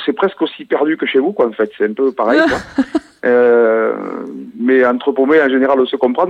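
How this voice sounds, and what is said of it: Southern French regional accent. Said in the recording (French): “vous avez un accent assez mignon, là, qui vient de l'Aveyron ... C'est pour ça que je reconnaissais cet accent.”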